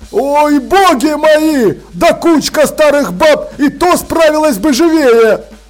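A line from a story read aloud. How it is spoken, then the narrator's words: Joyful yelling. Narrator (Russian): радостно орал он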